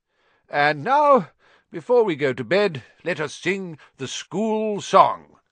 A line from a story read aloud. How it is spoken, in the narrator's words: cried Dumbledore